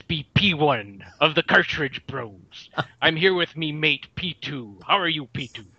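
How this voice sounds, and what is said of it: Not-quite-gravelly impersonation of a host. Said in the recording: “It's not quite gravelly enough ... doing an impression of Ramvox's impression of P1”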